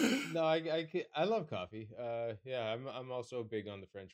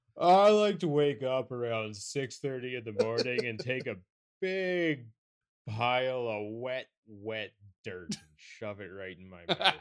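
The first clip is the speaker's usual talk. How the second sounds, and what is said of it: Put-on coffee snob voice. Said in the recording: “Let me just put on my best coffee snob voice for a second here. ... If you're going to do an impression of me, own it up front, man.”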